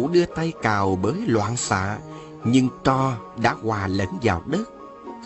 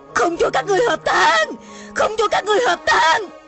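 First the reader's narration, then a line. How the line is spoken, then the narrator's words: Frantic wild shouting. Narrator (Vietnamese): Hà Hồng Dược la lên như điên dại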